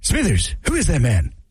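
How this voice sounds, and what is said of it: Mr. Burns cartoon voice impression. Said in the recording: “all my impressions sound like Mr. Burns, just different versions of Mr. Burns from The Simpsons”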